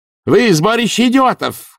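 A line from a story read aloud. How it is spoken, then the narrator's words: Shouted. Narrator (Russian): крикнула она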